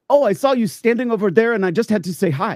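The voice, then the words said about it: Bad put-on French-Canadian accent. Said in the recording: “I'm going to do a horrible, very horrible Francophone accent”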